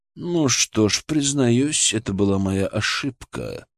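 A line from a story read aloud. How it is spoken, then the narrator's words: Calm drawl. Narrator (Russian): спокойно протянул граф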